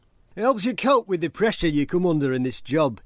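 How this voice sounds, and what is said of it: Northern English accent, Sam Allardyce impression. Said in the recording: “Can you do a northern accent? ... Can you read the quote from Sam Allardyce?”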